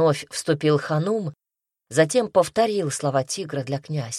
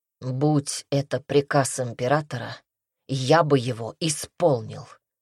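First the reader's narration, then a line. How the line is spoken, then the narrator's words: Plain. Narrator (Russian): сказал Дерсу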